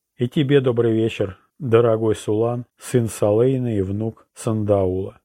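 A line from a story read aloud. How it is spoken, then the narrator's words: Plain. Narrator (Russian): сказала императрица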